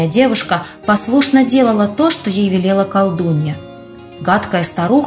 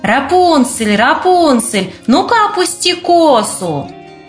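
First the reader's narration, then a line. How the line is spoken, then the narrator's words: Shouting. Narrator (Russian): Она кричала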